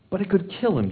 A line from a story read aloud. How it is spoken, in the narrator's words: pleaded